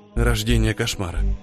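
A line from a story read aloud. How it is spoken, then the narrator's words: Nervous mutter. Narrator (Russian): пробормотал он и сглотнул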